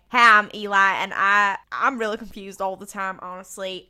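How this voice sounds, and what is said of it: Poorly imitated Southern accent. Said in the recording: “That's a really shit accent. I actually do better accents than that.”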